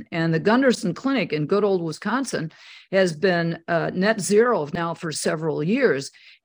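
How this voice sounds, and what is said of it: Wisconsin accent, somewhat flat vowels. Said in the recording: “I'm from Wisconsin with my accent, but it's not as flat as it used to be.”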